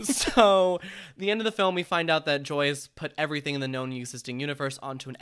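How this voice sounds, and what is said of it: Usual voice. Nothing is said of it.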